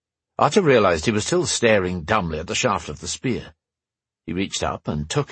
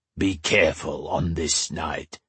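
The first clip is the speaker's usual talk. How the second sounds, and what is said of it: Rough, throaty foreign accent. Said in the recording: “he spoke in the common tongue, though each word was tinged with a rough accent, scraping from the back of his throat”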